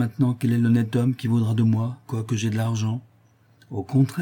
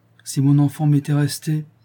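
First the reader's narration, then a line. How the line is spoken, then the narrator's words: Sad. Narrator (French): dit tristement Louise en interrompant Rigolette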